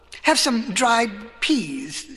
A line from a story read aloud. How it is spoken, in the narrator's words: stammered Cyrus